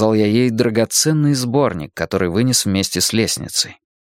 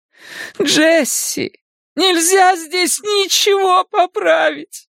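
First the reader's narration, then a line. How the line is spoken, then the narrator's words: Loud sobbing. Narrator (Russian): в голос зарыдала она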